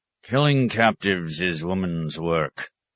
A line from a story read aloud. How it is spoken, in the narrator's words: he growled scornfully